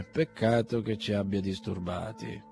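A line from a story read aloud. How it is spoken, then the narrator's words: Muttered. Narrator (Italian): borbottò Bazarov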